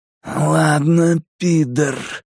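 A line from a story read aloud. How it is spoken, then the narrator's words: Growling. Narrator (Russian): прорычал Генри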